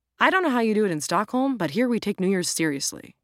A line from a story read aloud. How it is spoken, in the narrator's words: Jack replied